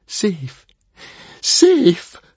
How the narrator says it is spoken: panted Fishlegs furiously

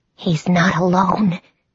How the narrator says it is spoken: whispered

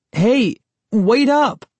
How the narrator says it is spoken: I cried

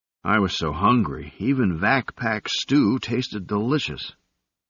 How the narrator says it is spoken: Robert sighed

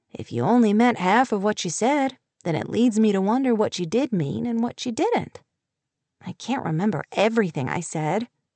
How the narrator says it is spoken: he said in an easy drawl

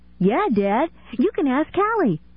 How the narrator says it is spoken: Kenny said excitedly

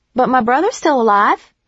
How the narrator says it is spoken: I said brightly

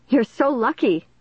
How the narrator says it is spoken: I exclaimed

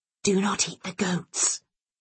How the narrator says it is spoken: Jackal whispered

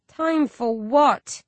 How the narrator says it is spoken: I groan, hating the intrigue

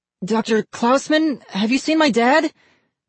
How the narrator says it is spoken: Ian cried

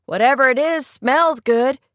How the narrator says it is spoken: called out

